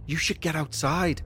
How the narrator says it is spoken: I whispered back to her

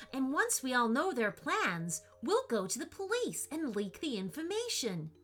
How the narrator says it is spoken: Joey exclaimed

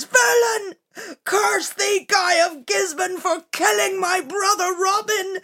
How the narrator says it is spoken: Little John began to scream through his tears

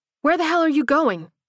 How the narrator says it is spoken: She cried

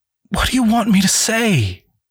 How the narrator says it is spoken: Cassandra pleaded in a wounded voice

